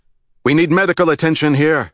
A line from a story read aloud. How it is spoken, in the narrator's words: he called out